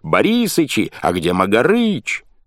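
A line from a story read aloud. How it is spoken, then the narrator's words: Yelling. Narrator (Russian): Пахомыча, который орал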